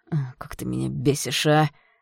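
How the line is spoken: Exhaled. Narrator (Russian): Выдохнул он

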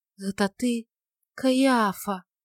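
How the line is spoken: Dreamy whisper after sigh. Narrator (Russian): Глубоко вздохнув, она, как во сне, прошептала

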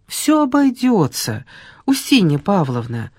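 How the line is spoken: Cheerfully patronizing tone. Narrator (Russian): сказала Ольга тем бодро покровительственным тоном, каким говорят с детьми и больными

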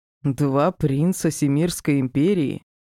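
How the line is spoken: Questioning with odd smirk. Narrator (Russian): Со странной ухмылкой уточнил мужчина

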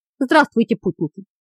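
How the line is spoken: Calm greeting. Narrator (Russian): Спокойно приветствовал их Рагрис

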